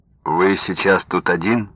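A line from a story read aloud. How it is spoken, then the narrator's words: Plain question. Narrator (Russian): спросил он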